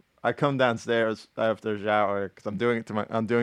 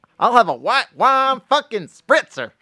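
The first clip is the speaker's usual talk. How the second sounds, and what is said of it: Imitates another person's voice. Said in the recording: “I worked on my Joe Exotic just for you guys ... doing the voice”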